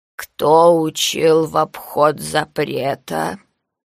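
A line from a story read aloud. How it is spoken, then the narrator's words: Creaky old voice. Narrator (Russian): Старческий голос проскрипел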